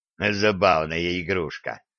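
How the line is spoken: Amused snort. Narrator (Russian): хмыкнул Гиви

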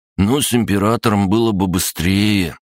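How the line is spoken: Bewildered drawl. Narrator (Russian): растерянно протянул Егор

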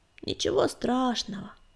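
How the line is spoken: Creaky voice. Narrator (Russian): проскрипела Щербатая

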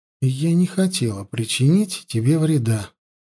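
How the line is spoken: Soft reply. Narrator (Russian): мягко ответила Янди

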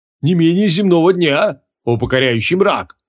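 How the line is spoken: Booming. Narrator (Russian): прогремел Марузух

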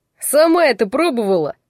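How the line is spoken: Barked, irritated customer. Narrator (Russian): рявкнул очередной благодарный клиент

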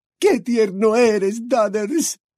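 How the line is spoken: Muffled sobbing. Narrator (Spanish): sollozó, hundiendo la cabeza en el inmenso pecho de su hijo

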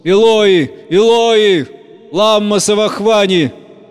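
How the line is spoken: Loud anguished cry. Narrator (Russian): возопил Иисус громким голосом

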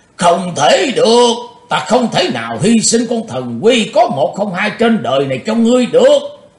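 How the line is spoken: Old man's roar. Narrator (Vietnamese): Ông lão gầm lên

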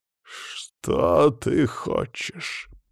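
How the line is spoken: Growled. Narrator (Russian): прорычал Вельцин

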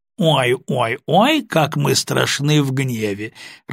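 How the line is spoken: Loud mocking laughter. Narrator (Russian): расхохотался Коротков

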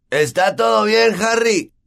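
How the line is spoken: Shouting. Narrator (Spanish): gritarle

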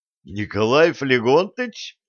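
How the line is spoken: Joyful, astonished exclamation. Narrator (Russian): воскликнул Савельев и радостно, и с нешуточным изумлением

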